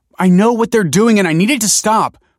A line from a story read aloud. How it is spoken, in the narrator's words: pleaded Michael